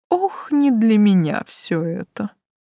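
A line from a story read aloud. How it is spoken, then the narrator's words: Tired. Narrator (Russian): устало заявил блондин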